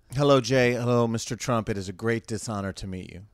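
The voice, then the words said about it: Deadpan sarcastic delivery. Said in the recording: “he's got the sarcasm down ... You don't sound British, but I like the deadpan humor.”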